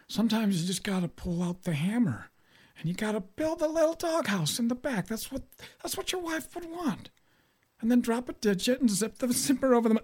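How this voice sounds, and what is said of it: Bad Jimmy Carter impression. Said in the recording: “worst Jimmy Carter impression, ... It is absolutely downright disgusting.”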